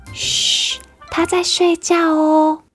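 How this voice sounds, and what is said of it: Soft hushed whispering voice. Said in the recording (Chinese): “小声的说”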